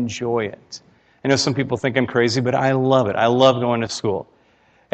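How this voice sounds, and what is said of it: Usual voice. Nothing is said of it.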